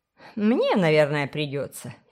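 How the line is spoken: Grumbled. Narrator (Russian): проворчала миссис Коннавер

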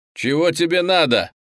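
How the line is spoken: Shout. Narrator (Russian): крикнул он

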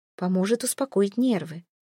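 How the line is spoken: Gentle, tender. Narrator (Russian): ласково произносит Самина

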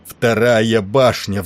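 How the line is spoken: Roar. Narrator (Russian): взревел он

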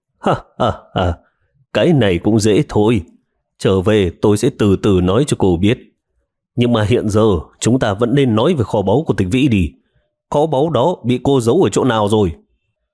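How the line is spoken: Faint dry laugh. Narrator (Vietnamese): Triệu Ngọc cười nhạt một tiếng

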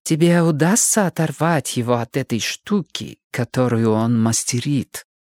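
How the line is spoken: Quiet. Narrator (Russian): тихо произнесла миссис Умляут

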